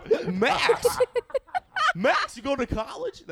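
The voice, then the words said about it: Goofy cartoon character voice. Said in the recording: “that's my goofy impression”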